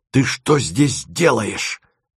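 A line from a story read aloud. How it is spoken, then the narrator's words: Angry whisper. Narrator (Russian): спросила она гневным шепотом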